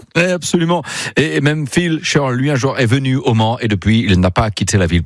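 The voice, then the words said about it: Put-on English accent in French. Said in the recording (French): “Pourquoi je parle avec cet accent-là? Parce que Phil Shirl, c'est un Anglais”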